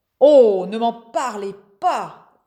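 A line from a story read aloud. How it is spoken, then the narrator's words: Groaning unwell magician. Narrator (French): gémissait le magicien, qui portait une serviette humide sur le front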